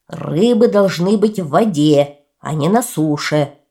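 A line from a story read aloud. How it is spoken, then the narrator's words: Grumbling. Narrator (Russian): продолжал ворчать хамелеон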